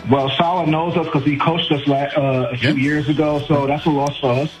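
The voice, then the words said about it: New York accent. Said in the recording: “the way you said "unfortunately" means you're from my neck of the woods... Are you a Queens guy?... I can hear it from your accent.”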